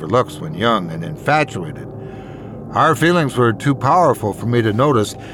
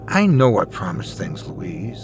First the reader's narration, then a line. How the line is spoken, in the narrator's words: I said, sighing